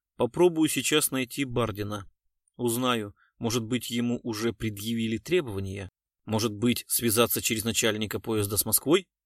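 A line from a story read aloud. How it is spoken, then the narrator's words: Plain. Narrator (Russian): спросил Глузский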